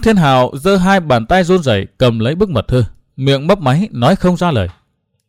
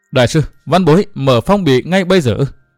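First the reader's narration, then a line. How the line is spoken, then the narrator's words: Trembling voice. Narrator (Vietnamese): Văn Thiên Hạo nói giọng run run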